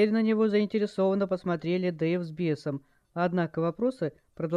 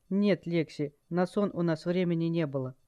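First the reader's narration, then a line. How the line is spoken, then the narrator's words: Calm smirking reply. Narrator (Russian): наемник усмехнулся и совершенно спокойно ответил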